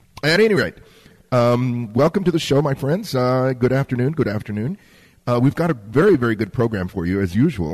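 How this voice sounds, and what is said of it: Hoarse, raspy voice. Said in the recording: “the sinuses took their toll on me. And I am sounding a little hoarse, whinny, nay. ... I'm sounding a little bit raspy”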